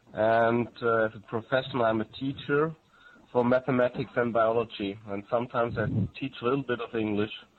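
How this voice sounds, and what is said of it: Strong German accent. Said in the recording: “I come from Germany. ... I have a strong accent.”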